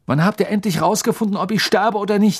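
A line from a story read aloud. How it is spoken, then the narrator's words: Surprised outburst. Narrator (German): rief Harry sogar zu seiner eigenen Überraschung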